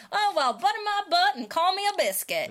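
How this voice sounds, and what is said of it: Put-on Southern twang. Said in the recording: “That's a very southern phrase. So you got a bit of a twang in there.”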